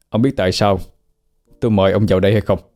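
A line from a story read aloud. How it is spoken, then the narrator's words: Stern questioning. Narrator (Vietnamese): anh nghiêm giọng chất vấn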